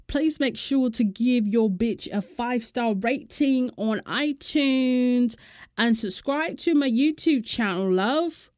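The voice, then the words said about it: Poor put-on British accent. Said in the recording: “let me do a British accent ... Oh, hell no, that was horrible.”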